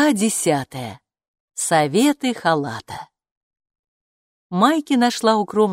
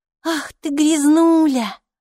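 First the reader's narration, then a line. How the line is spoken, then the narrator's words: Affectionate murmuring. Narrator (Russian): ласково приговаривала Майки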